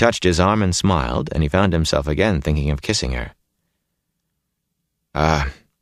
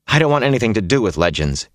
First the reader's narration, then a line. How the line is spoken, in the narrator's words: he said sharply